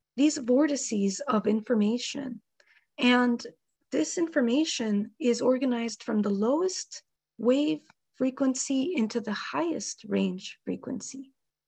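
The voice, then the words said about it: Hoarse, fading voice from a cold. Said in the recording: “I'm getting over a cold, so I'm losing my voice.”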